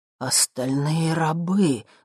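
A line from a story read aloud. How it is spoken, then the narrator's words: Breathed out. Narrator (Russian): выдохнул я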